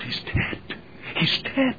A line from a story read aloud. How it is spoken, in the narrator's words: a murmur went through the crowd